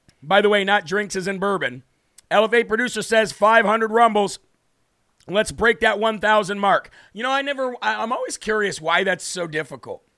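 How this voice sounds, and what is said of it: Worn-out, strained voice. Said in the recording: “I am so very sorry about my voice. It is absolutely shot.”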